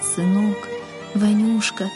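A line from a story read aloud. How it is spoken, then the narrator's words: Father's tearful whisper. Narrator (Russian): шептал отец, и по впалым морщинистым щекам текли крупные слезы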